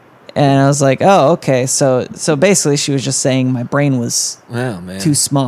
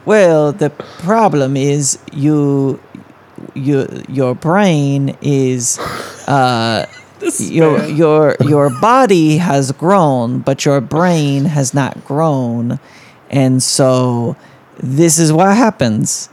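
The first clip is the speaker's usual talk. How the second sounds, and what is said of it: Put-on Russian accent. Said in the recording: “old Russian woman ... I'm going to do an accent now”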